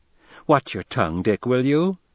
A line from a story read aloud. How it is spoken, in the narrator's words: But she laughed